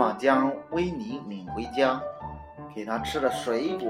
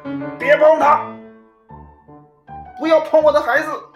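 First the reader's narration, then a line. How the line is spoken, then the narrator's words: Desperate loud shout. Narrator (Chinese): 绝望的危急时刻，妈妈……大声喊道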